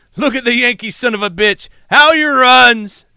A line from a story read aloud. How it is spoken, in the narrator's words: they laughed loudly